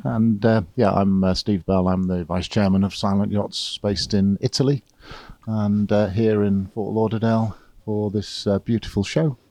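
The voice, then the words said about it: English accent. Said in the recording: “you have an accent, but it's also not an Italian accent ... I'm English. I'm originally from the UK.”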